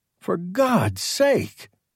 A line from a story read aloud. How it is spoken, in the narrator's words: Peterson exclaimed